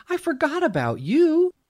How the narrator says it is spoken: she gasped

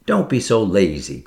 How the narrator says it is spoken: cried Ruth

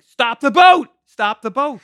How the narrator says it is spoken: So I panic and start yelling

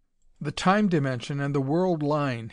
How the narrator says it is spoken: said sharply, excited in spite of himself

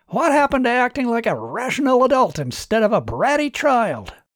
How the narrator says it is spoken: Martin shouted back

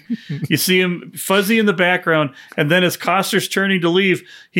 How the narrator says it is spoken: he laughs

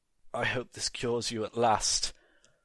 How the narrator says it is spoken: muttered Daggett / Rickman

